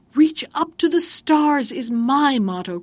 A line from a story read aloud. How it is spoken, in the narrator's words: cried the lady, when she was in a greater passion than usual